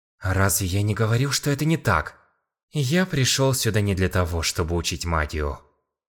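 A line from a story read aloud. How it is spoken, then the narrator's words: Sighing, interrupting. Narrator (Russian): Вздохнул Сон Мин, прерывая ее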